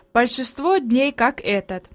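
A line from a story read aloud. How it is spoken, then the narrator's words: Plain. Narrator (Russian): ответил он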